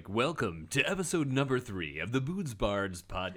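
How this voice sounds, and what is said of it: Over-the-top announcer voice. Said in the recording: “my like super announcer voice”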